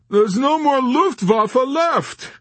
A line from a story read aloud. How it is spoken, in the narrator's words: he wailed